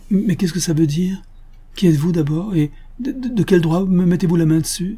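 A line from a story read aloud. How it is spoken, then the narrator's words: Bewildered stammer. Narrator (French): bégaya Nad, qui ne savait pas encore comment la chose était arrivée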